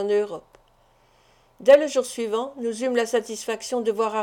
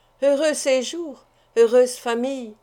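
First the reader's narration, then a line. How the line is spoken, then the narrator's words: Exclaimed with a sigh. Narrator (French): s'écria Madame Wollaston en soupirant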